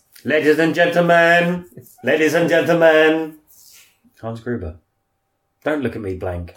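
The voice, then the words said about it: Poor Hans Gruber impression. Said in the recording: “my impression was shit ... It's fucking terrible.”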